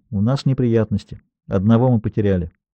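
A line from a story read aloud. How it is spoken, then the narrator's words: Quiet. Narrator (Russian): Рамос тихо добавил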